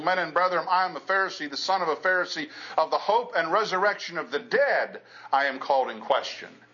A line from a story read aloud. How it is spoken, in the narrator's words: he cried out in the council